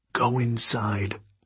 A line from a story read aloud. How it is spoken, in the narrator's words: he whispered